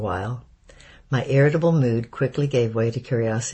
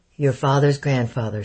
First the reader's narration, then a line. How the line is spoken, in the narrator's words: replied dryly